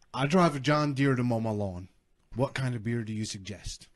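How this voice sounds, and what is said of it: Put-on Southern US accent. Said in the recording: “just got really southern... Southern Accent Night”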